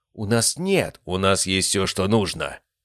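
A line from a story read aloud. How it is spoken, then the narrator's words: Sharp interruption. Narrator (Russian): резко перебил Брэндон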